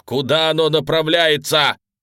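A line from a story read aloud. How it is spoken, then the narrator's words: Shout. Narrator (Russian): крикнул Клейн, лихорадочно шаря глазами по потолочным плитам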